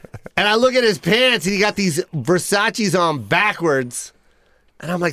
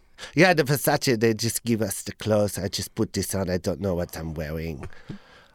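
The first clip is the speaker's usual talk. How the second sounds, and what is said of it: Imitates another person's voice. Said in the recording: “This is the worst impersonation of one of the twins”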